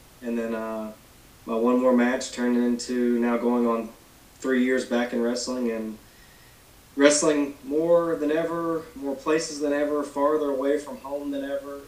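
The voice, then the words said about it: Thick Southern US country accent. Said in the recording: “I can definitely hear the thick country accent ... your experience growing up down south”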